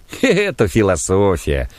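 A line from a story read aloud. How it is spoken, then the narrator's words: Laughing man. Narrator (Russian): засмеялся диакон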